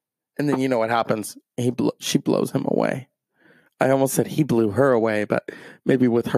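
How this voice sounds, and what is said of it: Usual voice. Nothing is said of it.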